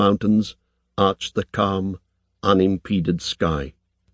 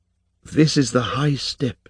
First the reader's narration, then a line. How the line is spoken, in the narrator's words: said, half-whispering